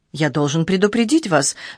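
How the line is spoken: Worried tone. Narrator (Russian): сказал он тем же обеспокоенным тоном

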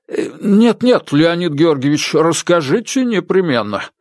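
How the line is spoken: Pleading. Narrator (Russian): взмолился доктор Комаровский

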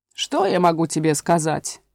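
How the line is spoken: Grumbling. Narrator (Russian): проворчала овца

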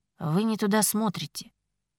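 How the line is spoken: Quiet. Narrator (Russian): тихо сказал Ричард

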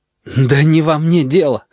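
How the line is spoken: Desperate exhale. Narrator (Russian): отчаянно выдохнул он

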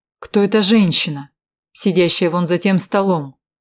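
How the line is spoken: Booming voice. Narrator (Russian): прогремел голос Эдварда Валкера

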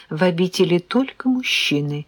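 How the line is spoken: Calm young man explaining. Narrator (Russian): спокойно пояснил парень

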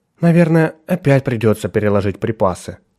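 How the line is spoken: Sighing. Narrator (Russian): вздохнула Николь

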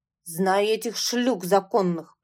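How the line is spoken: Grumbling. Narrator (Russian): проворчал Савелий

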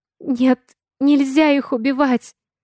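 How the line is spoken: Frightened whisper. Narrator (Russian): испуганно шепнула я

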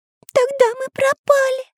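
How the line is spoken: Frightened pencil. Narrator (Russian): испуганно сказал карандаш

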